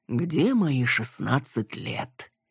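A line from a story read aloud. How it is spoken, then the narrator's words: Dreamy drawl. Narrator (Russian): мечтательно глядя ей вслед, протянул Иван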